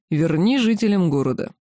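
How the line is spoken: Dragon's muffled growling reply. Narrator (Russian): Глухо прорычав что-то определенно ругательное, темно-зеленый дракон ответил

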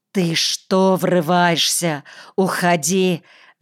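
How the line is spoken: Angry hiss. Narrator (Russian): зашипела фельдшерица

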